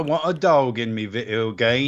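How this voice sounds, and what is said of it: Mocking imitation of a fake English accent. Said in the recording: “I was making fun of Holly's fake accent.”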